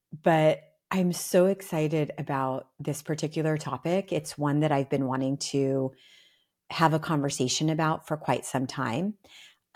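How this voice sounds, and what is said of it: Slightly scratchy voice. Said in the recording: “my voice might be a little scratchy”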